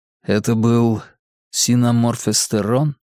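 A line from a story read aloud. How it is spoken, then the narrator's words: Quiet question. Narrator (Russian): тихо спросил я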